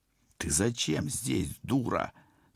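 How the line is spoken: Hissed through teeth. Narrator (Russian): сквозь зубы прошипел я

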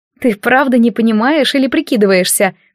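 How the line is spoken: Embarrassed snort. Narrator (Russian): фыркнула она, заливаясь краской

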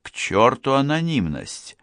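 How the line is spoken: Irritated exclamation. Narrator (Russian): раздраженно воскликнул Джерри

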